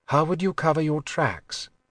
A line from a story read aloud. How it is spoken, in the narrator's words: asked quietly